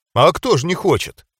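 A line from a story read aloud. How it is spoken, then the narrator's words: Smirking grunt. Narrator (Russian): хмыкнул я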